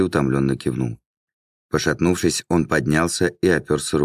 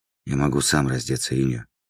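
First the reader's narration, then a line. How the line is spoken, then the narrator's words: Whisper. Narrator (Russian): прошептал наместник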